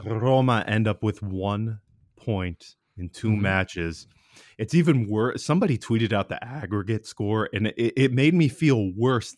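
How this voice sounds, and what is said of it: Sick, under-the-weather voice. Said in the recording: “apologize for my voice. I'm under the weather”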